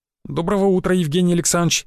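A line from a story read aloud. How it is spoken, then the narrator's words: Servile, babbling. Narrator (Russian): раболепно пролепетал Крапивин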